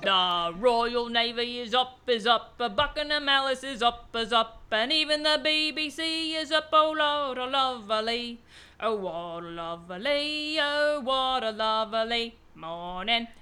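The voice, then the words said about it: Sings in a put-on accent. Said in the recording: “I want to hear ... do it in the accent.”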